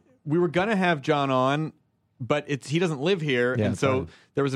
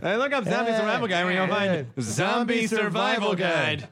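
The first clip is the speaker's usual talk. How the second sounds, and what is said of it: Norm MacDonald impression. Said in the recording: “That was very Norm MacDonald of you ... Is that guy doing a Norm MacDonald impersonation?”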